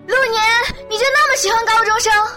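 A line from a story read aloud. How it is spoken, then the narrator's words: Shouting. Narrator (Chinese): 女三号对着幺零八六大喊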